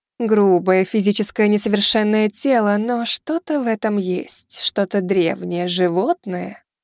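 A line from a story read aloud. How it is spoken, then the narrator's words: Purring. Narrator (Russian): промурлыкала восходящая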